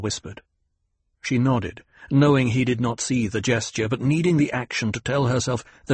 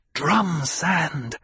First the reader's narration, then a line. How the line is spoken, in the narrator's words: Jessica hissed